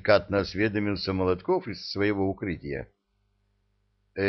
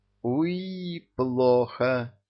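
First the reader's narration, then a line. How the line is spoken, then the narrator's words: Moan. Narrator (Russian): застонал Олежка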